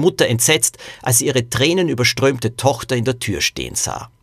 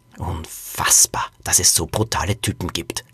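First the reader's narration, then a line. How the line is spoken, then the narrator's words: Growling. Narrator (German): knurrte Liselotte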